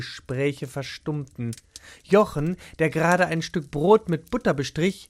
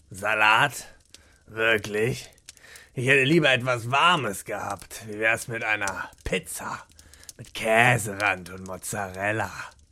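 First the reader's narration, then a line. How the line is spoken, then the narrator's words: Grumble. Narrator (German): brummte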